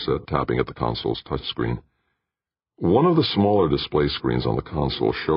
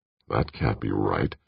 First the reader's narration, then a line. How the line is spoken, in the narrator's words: Hazard muttered